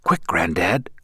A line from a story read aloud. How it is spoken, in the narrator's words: whispered Ben